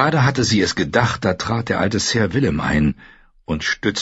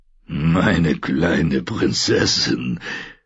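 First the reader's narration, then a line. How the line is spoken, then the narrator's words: Gruff friendly male voice. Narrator (German): sagte er mit seiner knurrigen, freundlichen Stimme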